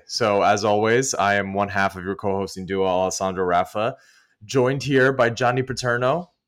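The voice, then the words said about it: Slightly hoarse voice. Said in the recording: “my voice is a little hoarse, I was at a wedding this weekend”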